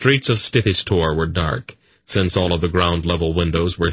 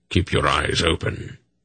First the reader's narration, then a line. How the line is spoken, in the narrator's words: Belgarath muttered